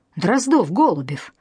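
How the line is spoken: Barked command. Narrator (Russian): рявкнул майор

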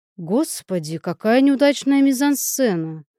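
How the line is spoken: Loud snort. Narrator (Russian): Певец громко фыркнул

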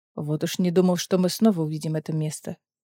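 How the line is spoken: Muttered. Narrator (Russian): пробормотал Дорин

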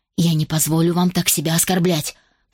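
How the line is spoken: Growl. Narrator (Russian): прорычала

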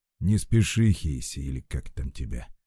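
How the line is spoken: Gloomy mutter. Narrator (Russian): мрачно пробормотал Артур

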